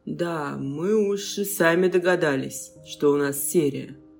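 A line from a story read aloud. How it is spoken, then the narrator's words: Grumbling. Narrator (Russian): проворчал Андрей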